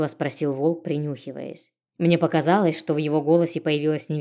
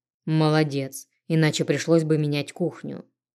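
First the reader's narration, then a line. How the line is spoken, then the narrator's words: Short snort. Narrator (Russian): коротко хмыкнул мужчина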